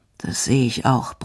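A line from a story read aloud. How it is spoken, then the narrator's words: Grumbling. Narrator (German): brummt er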